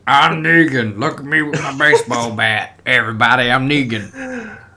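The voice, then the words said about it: Imitates a TV villain's voice. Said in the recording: “What was that impression?”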